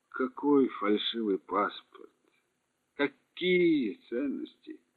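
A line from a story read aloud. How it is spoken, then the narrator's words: Dull flat question. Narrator (Russian): Тем же тусклым голосом осведомился Ноуман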